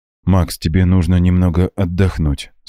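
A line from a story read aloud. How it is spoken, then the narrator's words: Plain. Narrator (Russian): сказала Люси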